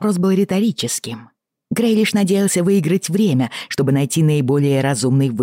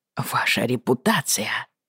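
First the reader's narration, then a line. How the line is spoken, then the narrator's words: Despairing mutter. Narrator (Russian): В отчаянии пробормотал лорд Джон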